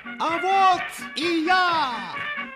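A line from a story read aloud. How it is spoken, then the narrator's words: Loud shout. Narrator (Russian): громко крикнул хозяин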